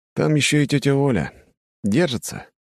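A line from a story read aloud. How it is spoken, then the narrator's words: Sighed. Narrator (Russian): вздохнул я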